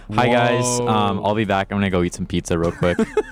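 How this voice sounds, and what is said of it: Imitates another person's voice. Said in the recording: “This is my impression of DJ DB Cooper”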